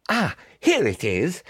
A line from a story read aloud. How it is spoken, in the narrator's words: he exclaimed in triumph